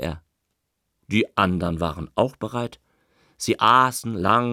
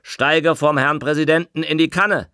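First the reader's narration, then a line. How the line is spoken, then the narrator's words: Big man calling out. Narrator (German): rief der große, rotblonde, mit Schmissen bedeckte Ostpreuße Assessor Matukat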